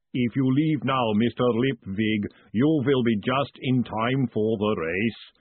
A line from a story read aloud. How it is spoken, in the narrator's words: the golem rumbled from the corner